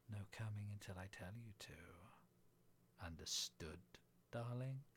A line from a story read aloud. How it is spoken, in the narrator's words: I whispered in her ear